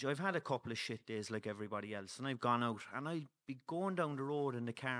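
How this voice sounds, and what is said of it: Cork Irish accent. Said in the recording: “I have the Cork accent,”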